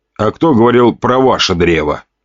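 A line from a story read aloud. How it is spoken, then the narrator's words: Wry snort. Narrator (Russian): хмыкнул я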